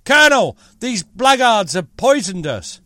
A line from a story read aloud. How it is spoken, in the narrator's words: called out